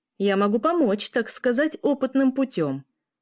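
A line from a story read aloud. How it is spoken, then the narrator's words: Shout then guffaw. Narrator (Russian): выкрикнул Трубников и заржал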